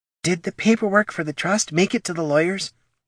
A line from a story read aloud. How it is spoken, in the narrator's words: he whispered softly